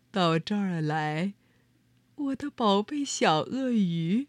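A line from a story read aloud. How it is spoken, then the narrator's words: Very gentle soft whisper. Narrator (Chinese): 用一种非常温柔的，就像小草在说悄悄话的声音，轻声的说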